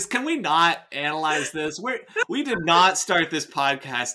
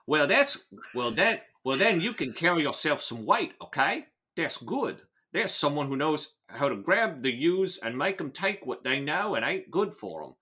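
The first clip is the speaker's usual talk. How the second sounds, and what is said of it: Put-on British accent. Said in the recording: “my British accent”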